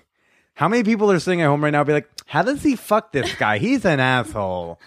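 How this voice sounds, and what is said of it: New York accent. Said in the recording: “You have more of a New York accent.”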